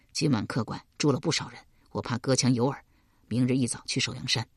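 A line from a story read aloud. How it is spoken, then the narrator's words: Low voice. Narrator (Chinese): 低声告道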